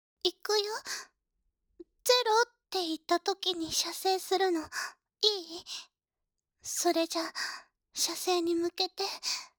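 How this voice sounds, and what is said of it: Whispering into the ear. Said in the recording (Japanese): “一緒に左右の耳で囁くのよ”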